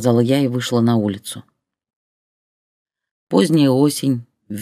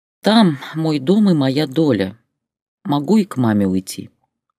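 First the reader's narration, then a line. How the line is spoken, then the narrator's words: Tired reply. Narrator (Russian): устало ответила я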